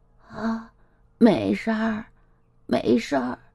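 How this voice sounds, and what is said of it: Quiet, soft-spoken line. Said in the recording (Chinese): “小声的说”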